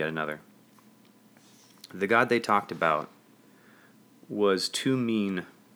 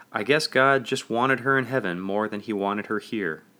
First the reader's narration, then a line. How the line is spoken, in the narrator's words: said another